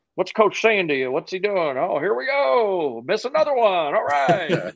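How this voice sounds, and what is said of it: Dave Letterman impression. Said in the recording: “it's not a bad impression, actually.”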